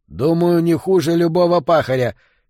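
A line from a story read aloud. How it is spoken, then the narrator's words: Angry. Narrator (Russian): сердито ответил Стукс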